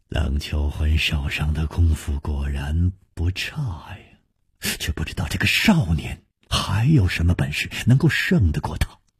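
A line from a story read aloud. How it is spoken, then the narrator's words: Quiet inward sigh. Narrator (Chinese): 楚留香暗叹说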